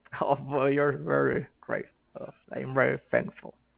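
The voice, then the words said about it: Subtle Bill Cosby impression. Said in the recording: “I love how he's subtly doing the voice... Let's hear your real Bill Cosby”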